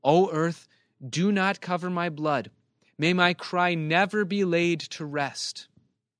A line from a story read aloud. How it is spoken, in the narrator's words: Job cries out